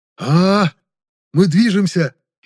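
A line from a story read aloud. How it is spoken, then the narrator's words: Frightened cry. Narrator (Russian): испуганно вскрикнул Тарин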